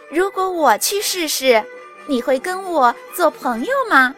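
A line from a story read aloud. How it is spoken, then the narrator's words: Laughing. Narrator (Chinese): 章鱼妹妹笑道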